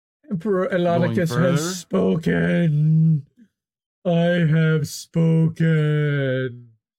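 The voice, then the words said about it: Imitates another person's voice. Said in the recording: “Is that your Elon impression?”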